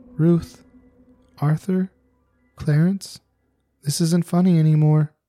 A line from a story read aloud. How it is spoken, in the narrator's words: Shakily, she called